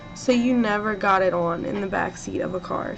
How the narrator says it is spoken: she said

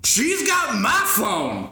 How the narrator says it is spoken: he yells

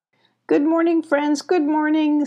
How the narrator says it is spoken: said Busy, waving excitedly

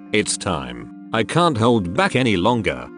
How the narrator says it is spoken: told through gritted teeth

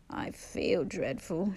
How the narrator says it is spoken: she croaked

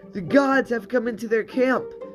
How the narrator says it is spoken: they cried

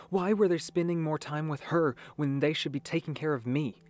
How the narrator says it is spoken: She cried out

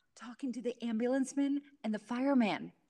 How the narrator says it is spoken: came the whispered answer

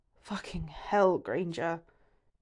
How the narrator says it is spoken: growls

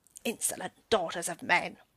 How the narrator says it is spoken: the goblin cried

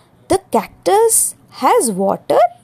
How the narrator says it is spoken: The rose in wonder and exclaimed

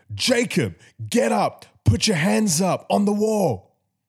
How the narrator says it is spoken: a guard yelled

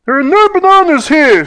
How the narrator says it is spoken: shouted Terry

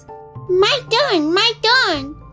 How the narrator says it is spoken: shouted Roo, jumping up and down excitedly

